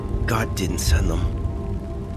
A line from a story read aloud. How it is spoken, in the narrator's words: Henry whisper